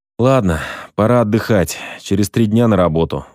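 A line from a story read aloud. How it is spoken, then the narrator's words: Sighing. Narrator (Russian): вздохнул я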